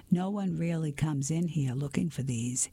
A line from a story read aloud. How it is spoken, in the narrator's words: he said with a chuckle